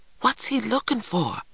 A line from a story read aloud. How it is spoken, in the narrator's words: I whispered